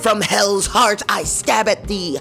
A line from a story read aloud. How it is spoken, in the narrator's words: I screamed